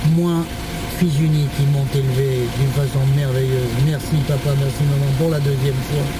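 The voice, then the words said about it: Very thick regional French accent. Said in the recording (French): “Quel accent! ... À couper au couteau!”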